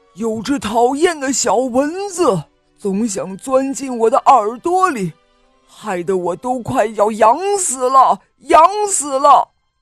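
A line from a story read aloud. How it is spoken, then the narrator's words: Roaring. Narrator (Chinese): 大象 它吼着说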